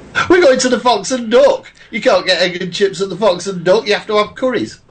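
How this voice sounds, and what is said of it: Mancunian accent. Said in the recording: “my Mancunian accent”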